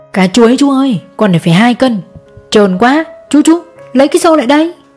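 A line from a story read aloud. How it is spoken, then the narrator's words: Loud shout. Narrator (Vietnamese): hét toáng lên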